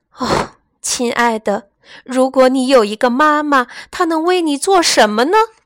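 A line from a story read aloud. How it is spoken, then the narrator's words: Sighing. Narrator (Chinese): 她叹了一口气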